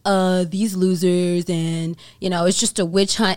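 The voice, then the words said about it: Imitates another person's voice. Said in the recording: “that's actually not a bad imitation. Way better than mine.”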